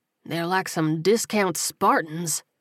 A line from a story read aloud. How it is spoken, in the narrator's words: Buddy muttered to himself